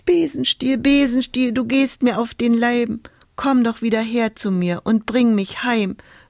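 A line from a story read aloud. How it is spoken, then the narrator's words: Whimpering. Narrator (German): wimmerte Hulda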